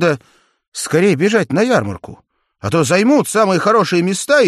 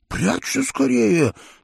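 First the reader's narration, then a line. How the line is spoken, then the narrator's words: Hurried whisper. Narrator (Russian): торопливо шепнул он Джеку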